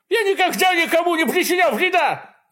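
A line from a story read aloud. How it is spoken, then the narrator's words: Shouting. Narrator (Russian): закричал Баки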